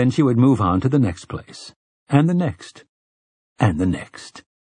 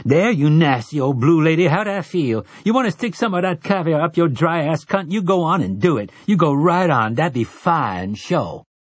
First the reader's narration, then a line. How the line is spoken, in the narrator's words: she might scream